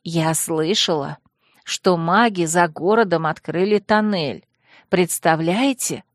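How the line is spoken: Whispering. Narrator (Russian): зашептала

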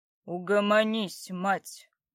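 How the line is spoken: Through gritted teeth. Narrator (Russian): процедил Братмир

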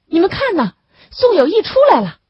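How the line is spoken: Shouting. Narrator (Chinese): 张香书喊了起来

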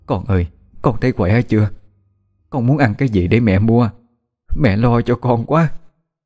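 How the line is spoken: Mother asking while crying. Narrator (Vietnamese): Bà khóc lóc hỏi

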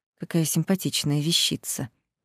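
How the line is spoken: Muttered. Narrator (Russian): пробормотал он

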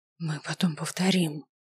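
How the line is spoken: Hoarse from screaming. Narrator (Russian): произнесла я хриплым от воплей голосом

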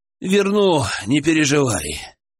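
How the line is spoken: Exhaling. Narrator (Russian): выдохнул

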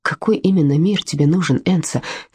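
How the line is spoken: Quiet question. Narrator (Russian): тихо спросил Чира

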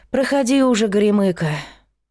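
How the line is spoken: Sighing. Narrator (Russian): вздохнула Сашка

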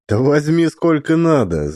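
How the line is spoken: Laughing. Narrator (Russian): засмеялся Максим

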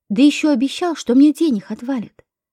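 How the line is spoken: Plain question. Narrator (Russian): спросил я

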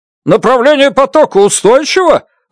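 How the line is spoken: Shouted. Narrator (Russian): выкрикнул доктор Браун

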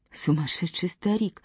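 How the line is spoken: Mutter. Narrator (Russian): пробормотала Эвелина

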